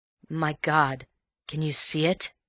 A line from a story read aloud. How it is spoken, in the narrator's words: said in a shaking voice